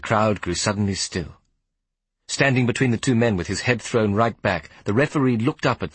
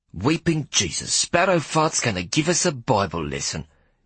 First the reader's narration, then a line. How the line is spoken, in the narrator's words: Big Hetty hissed at no one in particular